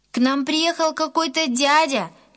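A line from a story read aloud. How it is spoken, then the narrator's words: Distant shout. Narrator (Russian): еще издалека крикнул Гена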